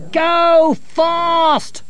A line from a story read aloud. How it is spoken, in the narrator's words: they shouted